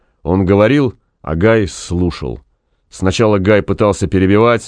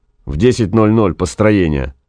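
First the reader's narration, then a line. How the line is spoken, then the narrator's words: Gloomy. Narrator (Russian): мрачно сказал Гай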